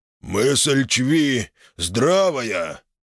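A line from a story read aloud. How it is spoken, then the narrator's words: Deep bass orc voice. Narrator (Russian): пробасил орк-здоровяк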